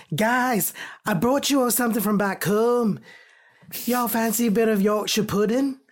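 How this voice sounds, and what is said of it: Imperfect attempted Yorkshire accent. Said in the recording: “I'm not getting the accent right. I'm so sorry.”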